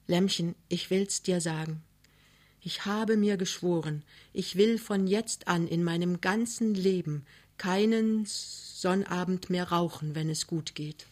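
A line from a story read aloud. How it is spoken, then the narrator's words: Whispering. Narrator (German): er flüstert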